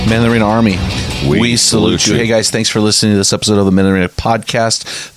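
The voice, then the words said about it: Exaggerated radio announcer voice. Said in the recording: “I think I went radio voice on that one a little bit too much ... my cool radio voice”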